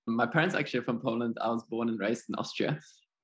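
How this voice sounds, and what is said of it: German accent. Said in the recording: “I love your accent, which makes me feel like Australia was not your first home ... So my accent is German.”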